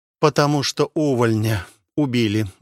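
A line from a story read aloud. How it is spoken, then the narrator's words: Sigh. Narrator (Russian): вздохнул полуэльф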